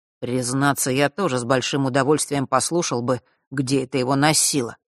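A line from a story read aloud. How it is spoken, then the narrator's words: Mutter. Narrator (Russian): пробормотал Мар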